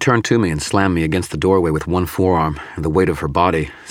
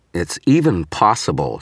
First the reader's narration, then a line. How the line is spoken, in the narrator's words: she snarled